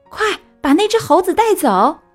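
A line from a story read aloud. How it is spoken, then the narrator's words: Guide shouting. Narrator (Chinese): 讲解员喊道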